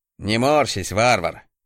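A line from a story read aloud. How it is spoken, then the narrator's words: Good-natured chuckle. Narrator (Russian): добродушно хмыкнул мужик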